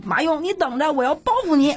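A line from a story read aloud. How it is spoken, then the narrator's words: Shouting. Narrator (Chinese): 高喊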